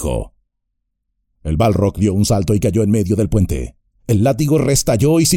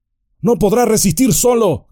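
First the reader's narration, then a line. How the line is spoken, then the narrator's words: Sudden shout. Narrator (Spanish): gritó Aragorn de pronto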